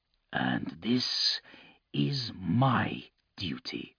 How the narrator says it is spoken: Lucas muttered

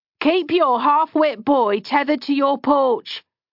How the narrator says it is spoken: the teamster had shouted at them

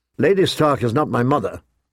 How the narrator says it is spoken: John reminded him sharply

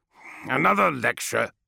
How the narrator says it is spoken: snarled the centurion

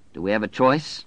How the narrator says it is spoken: Larry asked bitterly

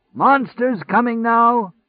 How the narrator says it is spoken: the monster shouter called

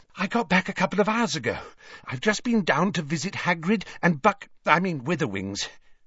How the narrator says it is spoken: she said breathlessly

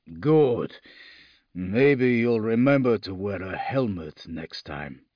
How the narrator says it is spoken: Lucas rumbled

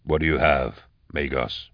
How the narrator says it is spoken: Eisenhorn asked quietly

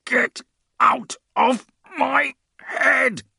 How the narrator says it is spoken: Grim croaked

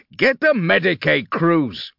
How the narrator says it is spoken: he roared

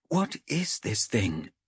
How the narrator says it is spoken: Chev whispered

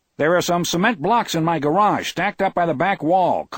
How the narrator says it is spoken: Collie yelled

